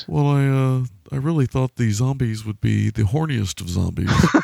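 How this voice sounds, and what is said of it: Bland, flat, lecturing intellectual voice. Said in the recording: “basically have to talk like this ... he's got this very kind of bland way of delivering things. This way he's almost like a heavy intellectual teaching a class.”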